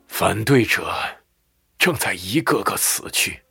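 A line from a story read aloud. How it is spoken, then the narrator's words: Sighing. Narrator (Chinese): 辛德曼叹息道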